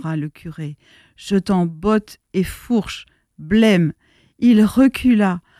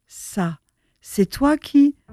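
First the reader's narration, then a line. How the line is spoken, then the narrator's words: Tense father exclaiming. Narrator (French): Le père le visage crispé s'écria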